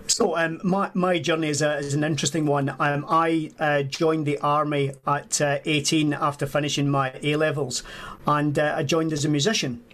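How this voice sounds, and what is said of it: A clearly noticeable accent. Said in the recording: “As you can tell by the accent. ... As you can. Yes, you can definitely. ... I'm not going to be trying that accent either”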